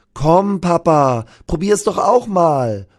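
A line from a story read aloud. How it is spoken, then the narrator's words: Girl calling out. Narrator (German): ruft das Mädchen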